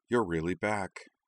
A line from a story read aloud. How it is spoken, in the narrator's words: Ash murmured